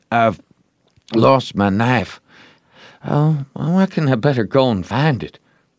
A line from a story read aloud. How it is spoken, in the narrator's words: Joe said feebly